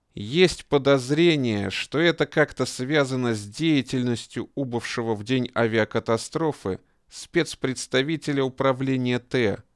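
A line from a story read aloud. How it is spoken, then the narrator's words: Spoken through clenched teeth. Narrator (Russian): сквозь зубы проговорил военный прокурор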